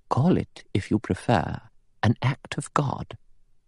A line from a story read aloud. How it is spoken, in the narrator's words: Emily Brent said quietly